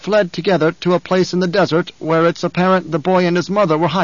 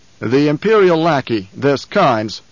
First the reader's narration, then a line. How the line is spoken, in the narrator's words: the Baron said